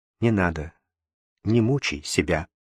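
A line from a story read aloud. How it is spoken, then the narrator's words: Quiet. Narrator (Russian): Она тихо сказала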